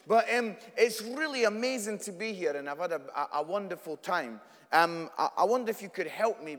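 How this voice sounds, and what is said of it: Scottish accent. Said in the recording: “As you can tell from my accent, I'm Scottish”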